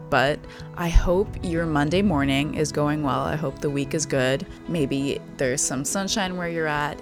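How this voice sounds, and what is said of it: Tired-sounding voice. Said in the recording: “I always record these intros super late at night, so I'm sorry again if I sound tired”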